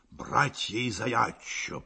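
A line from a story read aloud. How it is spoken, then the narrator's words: Muttering. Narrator (Russian): пробормотал он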